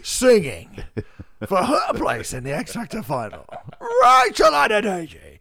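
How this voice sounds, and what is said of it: Impression of X Factor announcer. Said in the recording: “that guy in the X Factor who goes, ... and the DJ ... they do an impression”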